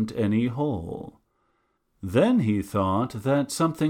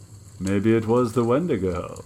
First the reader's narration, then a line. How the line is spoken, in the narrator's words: one of them said, and he laughed